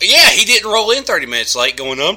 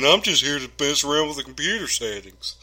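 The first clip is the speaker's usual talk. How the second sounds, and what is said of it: Masculine imitation of another person's voice. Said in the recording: “that your Randolph impression? ... that's my more masculine Randolph impression”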